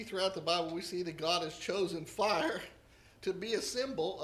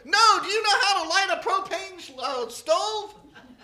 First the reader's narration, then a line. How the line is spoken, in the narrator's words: the guy who was going up shouted